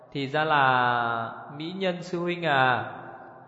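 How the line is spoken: Slow, smiling, resentful. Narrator (Vietnamese): Vivi thù cũ thêm hận mới, sau đó mỉm cười chậm rãi nói

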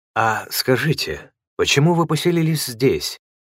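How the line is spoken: Timid question. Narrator (Russian): робко спросил я священника

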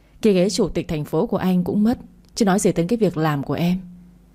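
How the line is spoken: Sighing. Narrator (Vietnamese): Đỗ Bình thở dài

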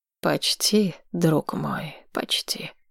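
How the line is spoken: Sighed. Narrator (Russian): вздохнул Вальтер

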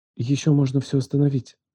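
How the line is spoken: Whisper. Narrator (Russian): прошептала она

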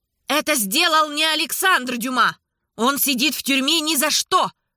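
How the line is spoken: Very loud shout. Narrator (Russian): Анна крикнула так громко, что очки у нее на носу задрожали

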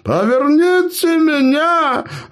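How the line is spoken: Gnome yelling. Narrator (Russian): орал прикованный к окну гном

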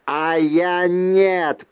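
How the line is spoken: Growled. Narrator (Russian): прорычал Джард

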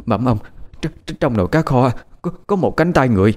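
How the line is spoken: Frightened stammering. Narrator (Vietnamese): Bà phụ bếp lắp ba lắp bắp mà nói

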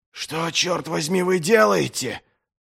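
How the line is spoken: Hoarse call. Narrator (Russian): хрипло окликнул его Пайк

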